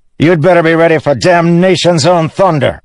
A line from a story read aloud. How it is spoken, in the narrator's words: Satius's officer shouted at Dalinar